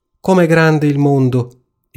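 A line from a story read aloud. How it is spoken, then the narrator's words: Ducklings exclaiming together. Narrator (Italian): esclamarono gli anatroccoli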